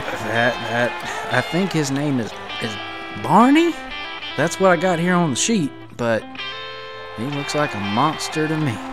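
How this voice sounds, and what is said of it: Put-on East Tennessee accent. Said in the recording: “Just having a little fun with our East Tennessee fans. ... I was from Eastern Kentucky, so I'm allowed to make that accent”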